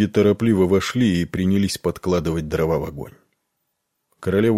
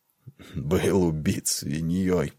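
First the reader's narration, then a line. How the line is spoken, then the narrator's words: Muttered. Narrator (Russian): пробормотал он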